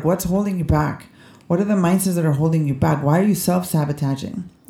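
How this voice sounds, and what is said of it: Bilingual speaker's non-native accent. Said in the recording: “I do have an accent, by the way... I'm bilingual... bilingual people sometimes have accents”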